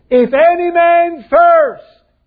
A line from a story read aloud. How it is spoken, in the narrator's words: He cried